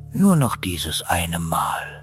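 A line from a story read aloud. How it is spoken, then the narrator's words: Whisper. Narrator (German): flüsterte dem Wagen zu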